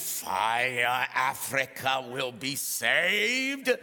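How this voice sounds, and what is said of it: Good impression of Reinhard Bonnke. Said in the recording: “I've seen people imitate Reinhard Bonnke ... that is a good imitation of him”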